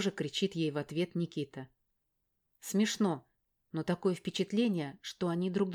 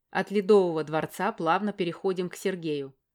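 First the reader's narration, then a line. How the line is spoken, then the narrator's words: Loud announcement. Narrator (Russian): громко объявляет Макар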